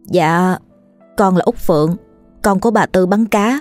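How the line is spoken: Flustered trembling girl. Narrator (Vietnamese): cô gái hình như có hơi bối rối nên run run trả lời

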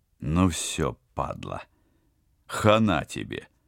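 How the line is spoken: Solemn announcement. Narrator (Russian): торжественно объявил Теодор

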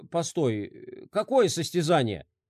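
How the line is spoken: Heavy sigh. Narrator (Russian): Дирк тяжело вздохнул

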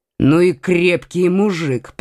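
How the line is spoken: Grumbling. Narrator (Russian): пробурчал

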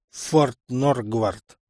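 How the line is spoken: Through gritted teeth. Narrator (Russian): процедил сквозь зубы тот

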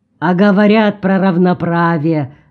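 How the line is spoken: Grumbling. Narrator (Russian): проворчал Гуват

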